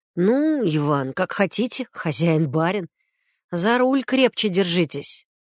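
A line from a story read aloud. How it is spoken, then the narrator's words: Snort, then more serious. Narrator (Russian): Он хмыкнул, а потом добавил уже серьезнее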